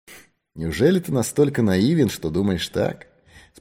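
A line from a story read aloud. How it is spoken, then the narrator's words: Calm question. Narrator (Russian): спокойно спросил сыщик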